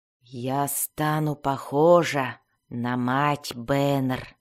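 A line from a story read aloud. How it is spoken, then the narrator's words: Disgusted whisper. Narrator (Russian): прошептала она, испытывая отвращение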